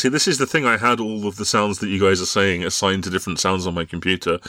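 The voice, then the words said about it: Damaged, strained voice. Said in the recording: “my voice has been destroyed”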